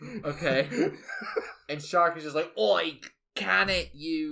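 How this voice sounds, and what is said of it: Usual voice. Nothing is said of it.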